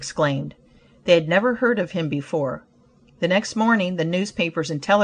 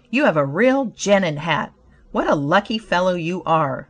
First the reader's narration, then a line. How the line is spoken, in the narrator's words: one man exclaimed